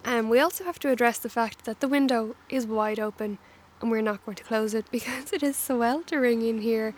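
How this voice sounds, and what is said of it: Hoarse, slightly grating voice. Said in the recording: “I am losing my voice a little bit. I hope it's not too grating. I'm hoping it's more Phoebe Buffay's sexy singing voice.”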